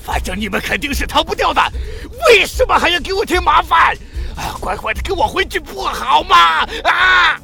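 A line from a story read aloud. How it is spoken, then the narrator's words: Venomous furious roar. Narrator (Chinese): 孙兴发出一声怒吼，怨毒的说道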